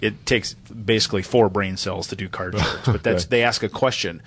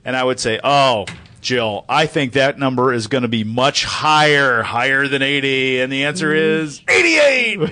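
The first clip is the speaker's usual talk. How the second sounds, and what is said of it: Imitates a game show host. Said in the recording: “I just did a great impersonation.”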